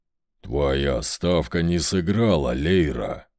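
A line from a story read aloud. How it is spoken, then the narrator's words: Deep booming voice. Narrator (Russian): прогудел старший хранитель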